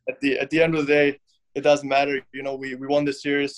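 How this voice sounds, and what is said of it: German accent. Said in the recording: “you're German. Um, if folks are listening to this podcast and they can hear your accent, uh, you know you're you're from overseas.”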